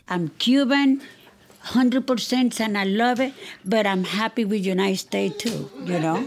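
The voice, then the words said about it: Cuban accent. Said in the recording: “one of the only marks of Cuba in her house is her accent.”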